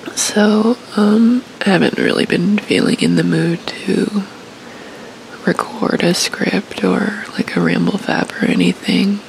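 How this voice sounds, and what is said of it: Sick-sounding voice. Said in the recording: “tell by my voice, but I don't exactly feel well”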